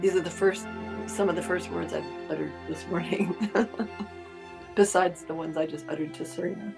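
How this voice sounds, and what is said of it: Rough, hoarse morning voice. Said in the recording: “Excuse my voice. Wow. ... I sound rough.”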